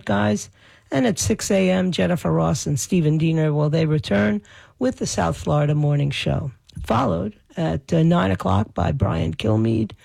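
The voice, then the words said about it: Raw, hoarse voice. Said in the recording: “my voice is still weird since all the screaming I did ... my voice is still raw”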